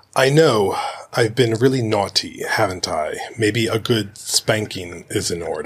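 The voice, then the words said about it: Imitates another person's voice, accent. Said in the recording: “I even gave you a little bit of the accent, too.”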